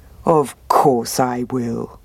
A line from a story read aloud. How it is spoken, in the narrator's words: said the bear